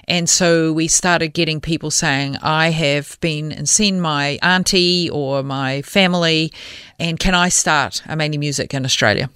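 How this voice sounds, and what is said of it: New Zealand accent. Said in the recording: “So I am a New Zealander. ... Oh, we might have picked that up on the accent.”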